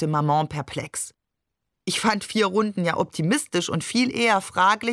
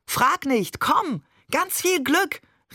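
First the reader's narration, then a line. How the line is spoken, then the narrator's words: Called out. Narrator (German): rief Barbe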